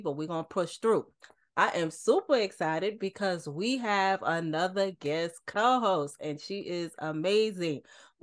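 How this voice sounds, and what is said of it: Slightly raspy voice. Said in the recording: “I'm recovering from a cold. My voice is a little raspy”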